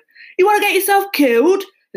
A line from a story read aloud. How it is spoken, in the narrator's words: the cabbie barked